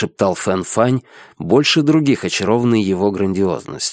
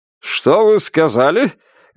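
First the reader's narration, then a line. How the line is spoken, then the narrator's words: Loud question. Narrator (Russian): громко спросил капитан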